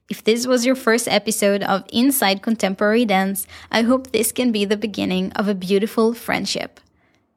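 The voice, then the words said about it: Israeli accent. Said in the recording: “my beautiful Israeli accent”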